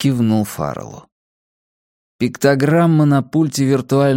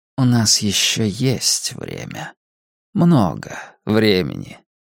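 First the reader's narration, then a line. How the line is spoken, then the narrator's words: Quiet. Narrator (Russian): он тихо сказал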